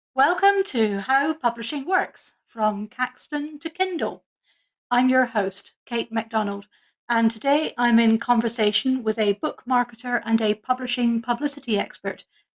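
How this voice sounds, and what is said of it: Strong Scottish accent. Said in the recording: “extremely Scottish on this pod ... my accent comes out full and strong”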